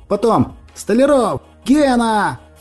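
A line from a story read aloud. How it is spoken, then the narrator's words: Shouting. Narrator (Russian): Закричал Иван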